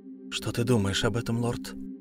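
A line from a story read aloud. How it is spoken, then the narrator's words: Quiet, faint. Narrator (Russian): Стараясь не упасть без чувств, Нигалея тихо сказала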